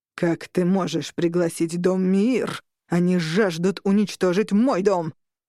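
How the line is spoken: Growl. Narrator (Russian): прорычал Орланд

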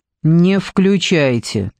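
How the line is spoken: Old woman's stern order. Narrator (Russian): строго приказала старушка

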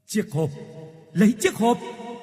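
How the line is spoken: Straining scream. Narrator (Vietnamese): Bà hai cố sức gào thét

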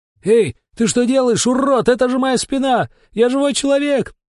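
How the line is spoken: Yelling. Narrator (Russian): завопил Сериков

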